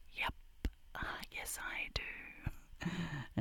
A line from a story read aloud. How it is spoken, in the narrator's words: I just whisper back